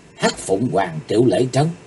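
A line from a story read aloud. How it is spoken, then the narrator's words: Involuntary soft cry. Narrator (Vietnamese): bất giác Chí Tồn kêu khẽ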